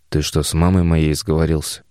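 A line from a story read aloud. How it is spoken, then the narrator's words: Displeased grumble. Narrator (Russian): Недовольно буркнул Тарас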